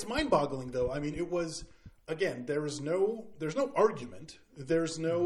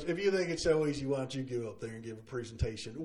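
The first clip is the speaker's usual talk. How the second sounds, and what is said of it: Imitates another person's voice. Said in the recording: “that was a really good impression of her”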